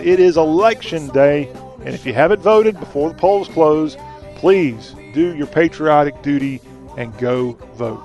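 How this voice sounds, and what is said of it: Southern accent. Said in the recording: “talk with a Southern accent.”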